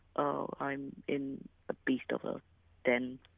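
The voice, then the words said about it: Whispering. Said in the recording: “you weird, whispering weirdo”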